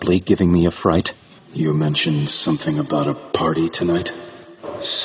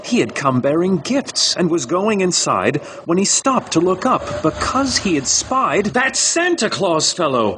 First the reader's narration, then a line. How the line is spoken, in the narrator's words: I exclaimed in the dark